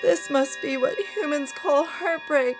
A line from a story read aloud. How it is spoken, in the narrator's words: Minerva wailed as she cried herself to sleep